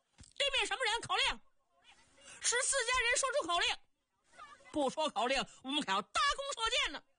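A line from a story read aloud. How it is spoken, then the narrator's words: Camp guard's loud shout. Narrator (Chinese): 守营的营门小校 高声喊嚷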